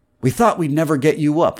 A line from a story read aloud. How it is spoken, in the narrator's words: Morrow said